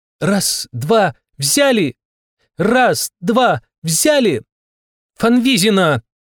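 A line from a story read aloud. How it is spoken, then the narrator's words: Shout. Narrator (Russian): крикнула Дольче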